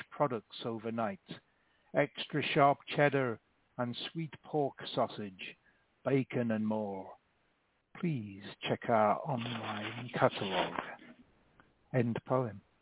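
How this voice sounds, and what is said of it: Reading poem with a distinctive accent. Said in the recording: “your beautiful accent that I admire”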